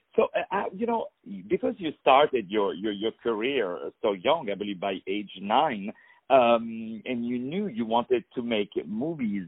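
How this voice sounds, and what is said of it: Non-native English accent. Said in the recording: “me coming from abroad, as you can hear from my not beautiful accent”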